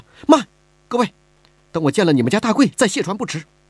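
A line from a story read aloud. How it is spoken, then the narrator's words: Anxious, urgent. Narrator (Chinese): 听见一个江匪喊着要卸船，李婉儿急了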